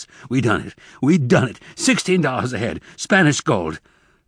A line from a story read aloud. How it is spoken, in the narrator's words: said in gasps